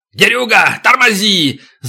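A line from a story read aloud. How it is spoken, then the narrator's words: Yelling. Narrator (Russian): заорал Макото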